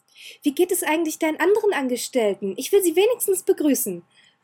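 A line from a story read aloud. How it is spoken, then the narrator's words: Calling out. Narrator (German): rief sie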